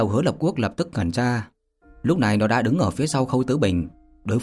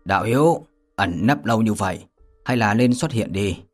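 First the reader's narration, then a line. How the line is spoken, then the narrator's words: Cold laugh, shout. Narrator (Vietnamese): lạnh lùng cười rộ lên quát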